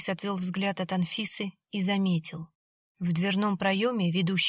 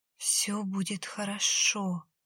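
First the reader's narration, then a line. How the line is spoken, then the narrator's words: Flat whisper. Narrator (Russian): бесцветным голосом прошептала Анфиса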